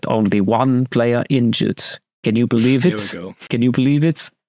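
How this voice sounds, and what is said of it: Imitates another person's voice. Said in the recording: “I hope my impression has come across the airwaves as good as it does in person there ... I think your Van Gaal one's your best impression”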